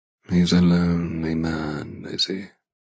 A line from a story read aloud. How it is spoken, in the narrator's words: He says in a low, sad tone